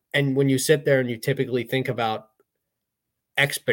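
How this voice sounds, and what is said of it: Usual voice. Nothing is said of it.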